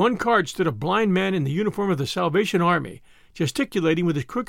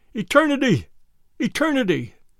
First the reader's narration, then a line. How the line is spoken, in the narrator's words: His voice was hoarse and very loud